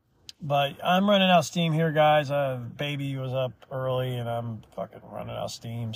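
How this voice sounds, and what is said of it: Hoarse, tired voice. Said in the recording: “My voice is getting hoarse”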